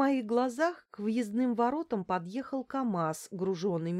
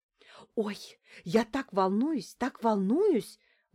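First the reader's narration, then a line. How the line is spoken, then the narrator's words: Excited whisper. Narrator (Russian): возбужденно шепнула Лариса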